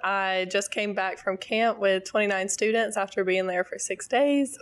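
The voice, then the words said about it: Rough, worn-out voice. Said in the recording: “please excuse my voice ... it's pretty rough”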